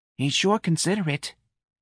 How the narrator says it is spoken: Miss Riley breathed into the mouthpiece

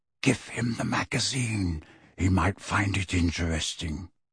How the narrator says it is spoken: Kingsley added in a whisper

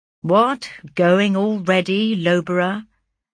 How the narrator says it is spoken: said he

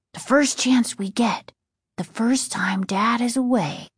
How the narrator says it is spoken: Casey whispered

